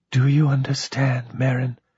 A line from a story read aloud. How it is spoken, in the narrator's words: she whispered